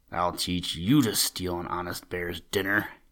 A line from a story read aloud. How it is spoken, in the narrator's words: he growled in his deep, grumbly-rumbly voice